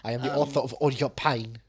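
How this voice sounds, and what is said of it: Weak put-on German accent. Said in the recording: “I don't have a good Christoph Waltz ... German? You just do German accent? It doesn't really work.”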